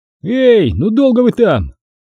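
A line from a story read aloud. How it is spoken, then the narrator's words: Shouted again. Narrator (Russian): вновь крикнул Серега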